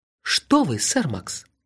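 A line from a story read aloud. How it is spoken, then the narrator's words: Soft question. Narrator (Russian): мягко спросил Гурик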